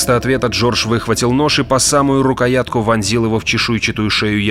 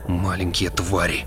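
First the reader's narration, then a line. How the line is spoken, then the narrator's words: Muttered. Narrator (Russian): пробормотал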